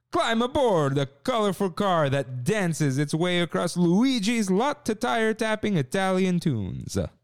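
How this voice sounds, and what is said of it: Exaggerated Italian accent, Luigi impression. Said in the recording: “Should I do racist Italian? ... It's a Luigi impression. ... I'll do the Luigi. ... I'm gonna do how Luigi himself would say it.”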